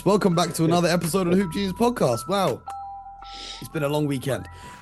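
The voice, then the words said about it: Hoarse, failing voice. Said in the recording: “my voice is going now too”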